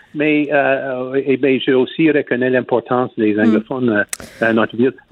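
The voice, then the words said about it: Speaks French with an accent. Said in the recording (French): “on ne veut pas parler comme toi, avec ton accent”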